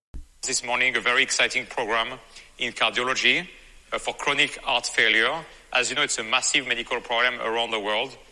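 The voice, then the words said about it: Speaks with an accent. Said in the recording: “He's got an accent”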